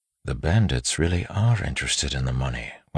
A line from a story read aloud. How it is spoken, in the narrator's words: Waxillium said softly